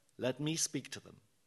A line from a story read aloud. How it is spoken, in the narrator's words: very calmly, like a wise mullah, said